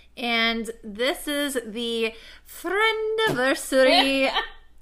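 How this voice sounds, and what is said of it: Different accent like Sebastian. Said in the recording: “You like went into a different accent... Like Sebastian from The Little Mermaid”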